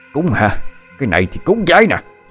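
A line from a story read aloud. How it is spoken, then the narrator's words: Man screaming. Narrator (Vietnamese): ông Long vừa gào thét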